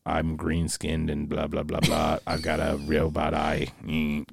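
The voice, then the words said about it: Robotic Borg character voice. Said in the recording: “Dude, that's exactly how they talk. ... That was so good. ... Best Borg impersonation.”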